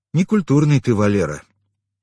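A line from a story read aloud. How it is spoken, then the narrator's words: Sighing. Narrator (Russian): вздохнул я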